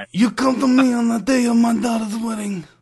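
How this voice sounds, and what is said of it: Godfather-style gangster impression. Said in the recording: “I've always tried to do the voice. ... You're better than I am.”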